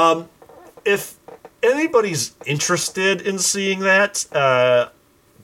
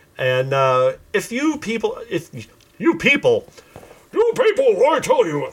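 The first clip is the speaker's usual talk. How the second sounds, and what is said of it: Imitates another person's voice. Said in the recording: “my Rush Limbaugh impression”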